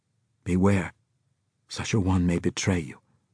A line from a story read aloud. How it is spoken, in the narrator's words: Faisal whispered in the scorpion's ear